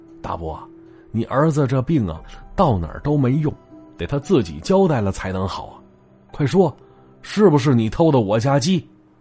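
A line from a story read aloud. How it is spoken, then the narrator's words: Calm, smiling. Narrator (Chinese): 王奎也不急，依然微笑着又说了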